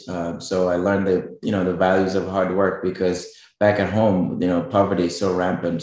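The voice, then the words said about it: Kenyan East African accent. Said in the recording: “you might be able to tell from my accent ... I'm actually originally from Kenya, which is East Africa”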